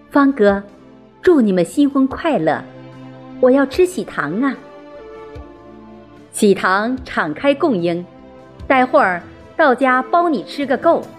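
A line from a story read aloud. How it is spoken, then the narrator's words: Startled, then laughing. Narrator (Chinese): 子竹微微一怔，随即笑着说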